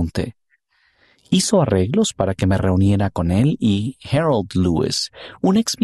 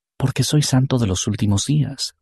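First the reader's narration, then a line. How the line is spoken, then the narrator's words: Plain. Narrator (Spanish): respondió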